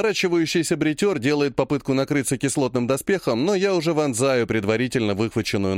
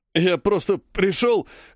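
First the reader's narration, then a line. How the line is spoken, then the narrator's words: Hoarse, making excuses. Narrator (Russian): хрипит Уткин, оправдываясь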